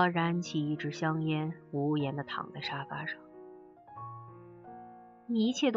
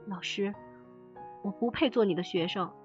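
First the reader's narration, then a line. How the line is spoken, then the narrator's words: Sighing after crying. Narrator (Chinese): 他停住哭，叹一口气对我说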